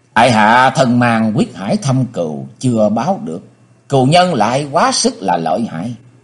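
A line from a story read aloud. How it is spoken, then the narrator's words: Sighing. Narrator (Vietnamese): Âu Dương Vân Phi bỗng thở dài nói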